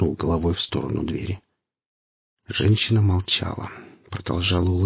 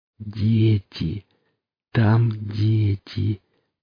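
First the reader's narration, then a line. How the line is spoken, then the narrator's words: Calm. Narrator (Russian): проговорила женщина спокойно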